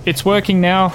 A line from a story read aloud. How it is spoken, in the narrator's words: he called out